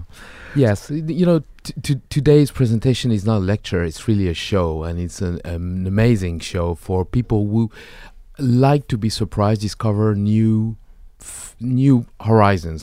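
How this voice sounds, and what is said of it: French accent. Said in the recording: “I like that French accent. ... Yeah, I can't hide it.”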